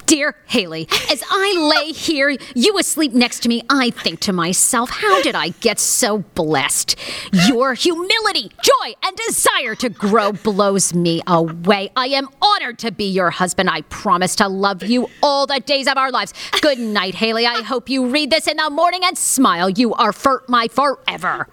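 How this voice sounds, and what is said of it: Mock angry reading voice. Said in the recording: “in your angry voice”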